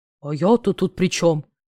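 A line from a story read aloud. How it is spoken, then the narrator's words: Offended droning voice. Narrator (Russian): Обиженно загудел третий голос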